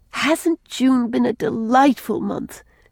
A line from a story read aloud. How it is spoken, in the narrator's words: she asked, looking dreamily